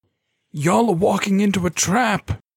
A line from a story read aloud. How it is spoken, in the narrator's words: he yelled